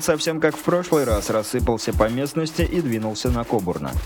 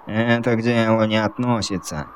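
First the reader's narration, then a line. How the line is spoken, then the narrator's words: Irritated interruption. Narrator (Russian): раздраженно оборвал его безволосый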